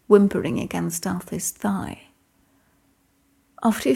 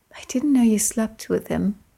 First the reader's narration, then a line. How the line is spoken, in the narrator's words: Merlin said drowsily